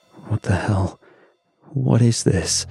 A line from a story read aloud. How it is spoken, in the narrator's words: he muttered, voice clipped, trying to stay on comms protocol but failing